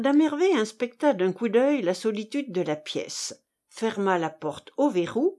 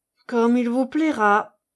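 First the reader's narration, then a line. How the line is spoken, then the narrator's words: Resigned sigh. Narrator (French): soupira le prince résigné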